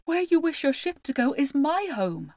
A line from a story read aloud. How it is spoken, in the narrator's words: he cried